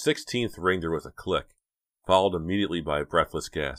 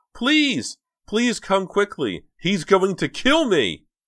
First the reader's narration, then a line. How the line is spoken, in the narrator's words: the shrillest, most frightening sounding voice Dina had ever heard cried out